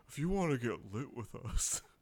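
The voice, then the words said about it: Husky voice. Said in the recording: “talking in a husky voice”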